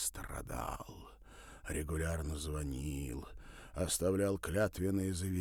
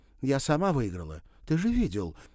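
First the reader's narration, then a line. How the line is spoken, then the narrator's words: Indignant exclamation. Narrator (Russian): воскликнула она с почти искренним возмущением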